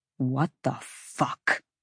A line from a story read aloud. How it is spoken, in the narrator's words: Rune hissed